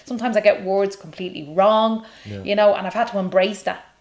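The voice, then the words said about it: Own regional accent. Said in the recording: “your accent? ... my dialect ... I say them differently”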